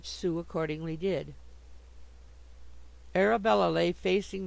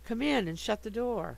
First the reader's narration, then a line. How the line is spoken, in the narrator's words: Arabella cried from the bed